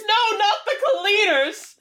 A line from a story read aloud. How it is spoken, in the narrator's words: Hoggle screams